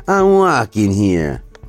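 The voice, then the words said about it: Put-on New York accent. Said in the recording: “a New York accent?”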